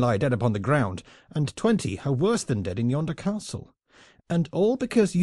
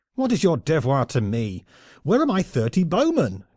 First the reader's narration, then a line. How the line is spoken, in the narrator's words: cried Knolles in bitter wrath